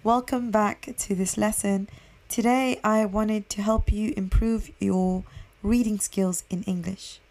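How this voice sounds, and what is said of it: Hoarse, unusually deep voice. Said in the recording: “I think I'm losing my voice. It's starting to sound very deep and different”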